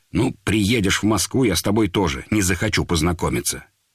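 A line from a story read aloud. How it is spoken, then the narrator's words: Angry. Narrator (Russian): Тогда Володя так зло говорит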